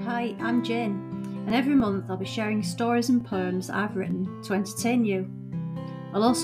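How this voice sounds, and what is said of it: Hull accent. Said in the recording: “all told in a Hull accent.”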